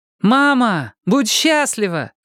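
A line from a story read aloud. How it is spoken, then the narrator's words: Shouted from another room. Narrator (Russian): крикнула из кухни Синтия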